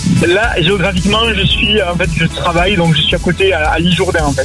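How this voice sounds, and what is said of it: Regional French accent from the Gers. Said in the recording (French): “Est d'où cet accent ... Je viens du Gers”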